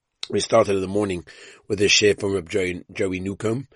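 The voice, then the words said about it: Weak, strained voice. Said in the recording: “my voice is a little bit schwach”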